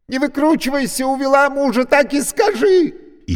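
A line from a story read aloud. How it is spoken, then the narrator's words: Hysterical shriek. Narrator (Russian): истерически завизжала женщина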